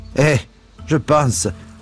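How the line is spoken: Laughing woman. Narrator (French): dit la bonne femme en riant

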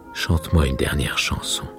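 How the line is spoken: Murmuring. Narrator (French): murmura-t-il

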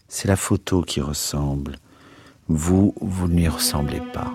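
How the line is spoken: Faint voice. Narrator (French): dit-il d'une voix éteinte

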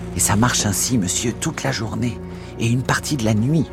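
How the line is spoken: Whispered. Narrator (French): chuchota Poole

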